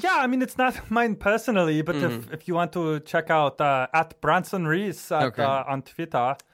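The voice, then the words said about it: Exaggerated put-on accent. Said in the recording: “I know my accent is ridiculous.”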